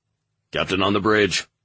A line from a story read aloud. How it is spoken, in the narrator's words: the guard at the door barked